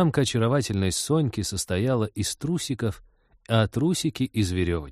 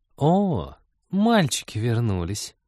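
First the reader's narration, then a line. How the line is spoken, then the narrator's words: Purring. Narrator (Russian): промурлыкала включившаяся Маша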